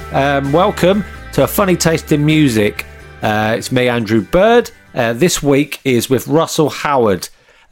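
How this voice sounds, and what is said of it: Congested voice from a cold. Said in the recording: “I've got a cold. I know you don't care, but that's why my voice sounds like this.”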